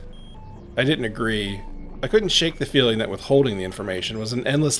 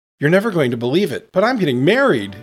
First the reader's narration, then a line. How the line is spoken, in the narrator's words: blurted out excitedly